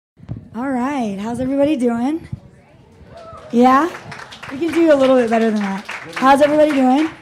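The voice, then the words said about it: Husky, worn-out voice. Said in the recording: “My voice is very sexy right now.”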